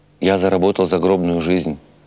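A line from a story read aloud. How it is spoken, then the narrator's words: Plain. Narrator (Russian): ответил он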